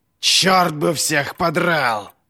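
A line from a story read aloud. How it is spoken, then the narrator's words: Growling. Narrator (Russian): Зарычал Глокта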